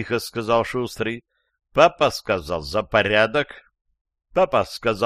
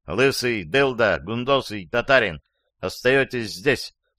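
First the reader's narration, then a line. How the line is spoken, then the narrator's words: Plain. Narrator (Russian): сказал Шустрый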